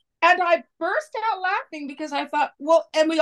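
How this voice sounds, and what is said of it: Usual voice. Nothing is said of it.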